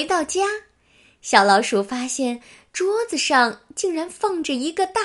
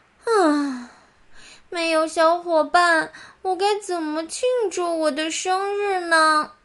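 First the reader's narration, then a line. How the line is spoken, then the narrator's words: Disappointed sighing mouse. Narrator (Chinese): 小老鼠失望的，一边走一边叹气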